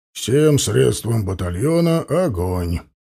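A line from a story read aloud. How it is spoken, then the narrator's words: Calm, matter-of-fact. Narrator (Russian): Против ожидания очень спокойно и даже буднично проговорил он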